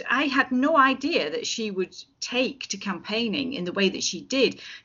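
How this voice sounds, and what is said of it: Lancashire English accent. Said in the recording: “that's not an Edinburgh accent you've got... It certainly isn't an Edinburgh accent... I am from Lancashire”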